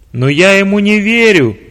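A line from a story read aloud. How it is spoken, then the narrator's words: Shouted. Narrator (Russian): прокричал начальник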